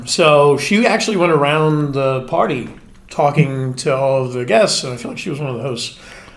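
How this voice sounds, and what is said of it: East Tennessee Southern accent. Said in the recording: “it's a really good accent, by the way. ... my parents are from East Tennessee. I got it.”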